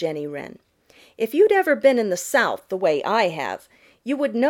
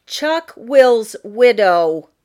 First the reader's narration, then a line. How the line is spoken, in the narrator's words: Jenny Wren fairly shouted it